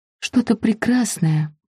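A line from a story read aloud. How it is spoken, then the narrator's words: Whisper. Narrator (Russian): прошептала я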